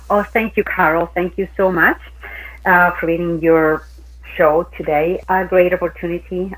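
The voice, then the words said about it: Speaks with an accent. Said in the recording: “you know how much I love your accent ... I'm just going to listen to you because it's beautiful”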